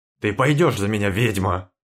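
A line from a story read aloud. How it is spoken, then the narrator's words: Growled. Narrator (Russian): рыкнул волк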